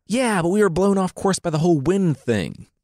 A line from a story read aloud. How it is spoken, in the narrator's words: Odysseus replied